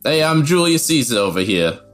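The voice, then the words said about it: Put-on Jersey Italian American accent. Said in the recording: “all speak with like Jersey accents, um, like Italian American accents”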